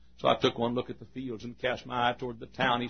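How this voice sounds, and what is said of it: Texan accent. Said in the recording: “I'm a Texan and they won't understand me up there. And my accent is not what they know.”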